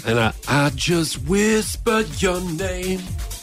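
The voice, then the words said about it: Sung imitation of another person's voice. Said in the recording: “That's my Harry Connick Jr. impersonation. ... That was very good.”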